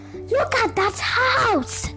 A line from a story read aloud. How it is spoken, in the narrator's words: cried Joe